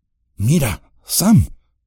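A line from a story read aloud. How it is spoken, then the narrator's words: Breathless exclamation. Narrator (Spanish): exclamó con voz entrecortada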